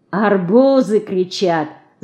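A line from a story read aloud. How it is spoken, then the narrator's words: Laughing. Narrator (Russian): засмеялась Динка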